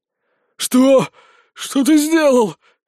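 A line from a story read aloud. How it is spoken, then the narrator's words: Hoarse rasp. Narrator (Russian): хрипит он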